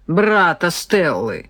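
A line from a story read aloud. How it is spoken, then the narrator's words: Indignant snort. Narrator (Russian): фыркнул полный негодования майор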